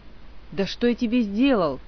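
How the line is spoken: Exhausted groan, old man. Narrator (Russian): измученно простонал старый магистр

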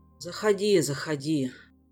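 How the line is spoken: Sighing. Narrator (Russian): вздохнул первый паладин

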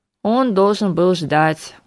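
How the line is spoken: Glum, dejected. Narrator (Russian): уныло сообщил Харган

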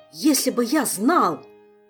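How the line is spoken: Furious near-shout, young man. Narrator (Russian): почти кричал юный маг, яростно

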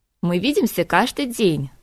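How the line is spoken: Queen laughing. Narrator (Russian): засмеялась королева

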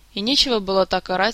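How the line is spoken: Calm remark. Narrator (Russian): спокойно заметил Мафей

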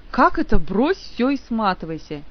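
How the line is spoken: Indignant exclamation. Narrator (Russian): негодующе воскликнул он

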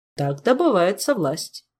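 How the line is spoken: Calm businesslike tone. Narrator (Russian): спокойно деловитым тоном изрек

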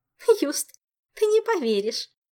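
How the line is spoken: Nervous giggle. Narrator (Russian): нервно хихикнула Зинь

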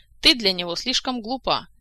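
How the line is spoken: Sharp, cutting off. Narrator (Russian): резко оборвала ее графиня

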